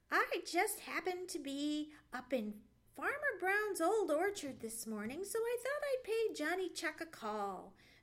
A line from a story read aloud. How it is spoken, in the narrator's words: said Sammy, and chuckled